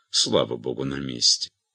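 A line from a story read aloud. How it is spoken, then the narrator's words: Whisper in ear. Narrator (Russian): Беатриса нагнала ее и шепнула на ухо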